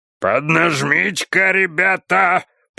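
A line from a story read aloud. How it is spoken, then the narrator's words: Bear's roar. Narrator (Russian): проревел белый медведь с галерки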